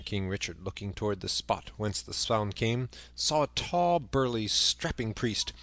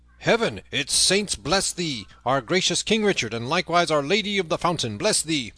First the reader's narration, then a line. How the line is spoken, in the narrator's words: above all the tumult and the shouting, a great voice was heard roaring